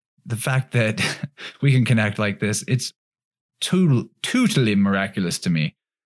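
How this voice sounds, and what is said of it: Weird put-on accent. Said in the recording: “I just did a weird accent”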